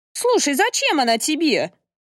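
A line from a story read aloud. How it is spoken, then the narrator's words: Woman shouting. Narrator (Russian): крикнула тетка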